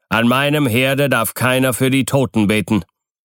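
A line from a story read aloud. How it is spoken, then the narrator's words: Stern speech. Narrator (German): sagte er streng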